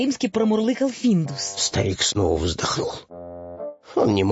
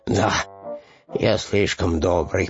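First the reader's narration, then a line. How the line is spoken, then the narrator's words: Muttering. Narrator (Russian): пробормотал он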